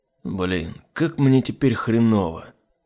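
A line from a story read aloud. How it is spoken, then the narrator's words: Tired. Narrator (Russian): Устало проговорил Айзек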